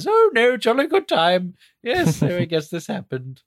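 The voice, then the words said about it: Imitates a posh English queen. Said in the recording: “sounded like Olivia Colman's Queen Elizabeth”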